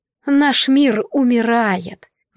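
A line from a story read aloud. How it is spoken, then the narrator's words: Sigh. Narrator (Russian): вздохнула Радира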